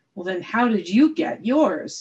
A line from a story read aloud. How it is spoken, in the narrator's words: snapped the king